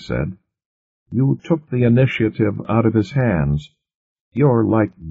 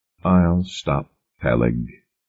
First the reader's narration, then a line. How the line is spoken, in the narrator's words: Wakeman said quietly